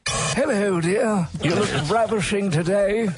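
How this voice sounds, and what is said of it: Regal Prince Philip impression. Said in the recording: “That's Prince Philip. Right. Can't you tell?... His regalness.”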